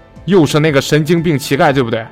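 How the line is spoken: Roaring. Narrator (Chinese): 他大吼

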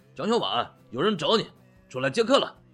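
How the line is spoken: Hearty, vigorous shout. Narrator (Chinese): 意犹未尽的直起腰杆，中气十足的喊道

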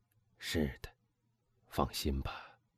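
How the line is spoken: Quiet voice. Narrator (Chinese): 他低声说

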